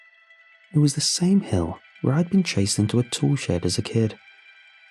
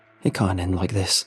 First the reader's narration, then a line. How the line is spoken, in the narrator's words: I panted